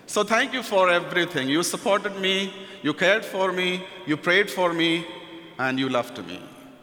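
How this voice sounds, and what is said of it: Indian-accented English. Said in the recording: “my Indian accent ... the Indian accent”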